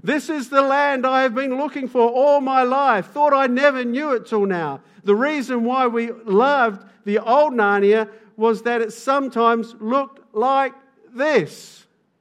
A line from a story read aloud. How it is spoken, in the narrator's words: neighed and then cried